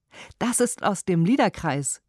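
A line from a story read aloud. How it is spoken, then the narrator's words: Called out. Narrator (German): rief ich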